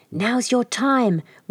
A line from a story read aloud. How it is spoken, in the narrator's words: whispered Hoodoo in his ear